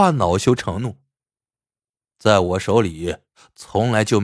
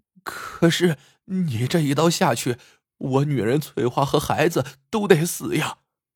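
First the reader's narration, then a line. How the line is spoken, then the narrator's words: Tearful pleading. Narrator (Chinese): 马天虎带着哭腔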